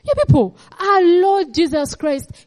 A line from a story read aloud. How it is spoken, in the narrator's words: he cried when he was under distress in the Garden of Gethsemane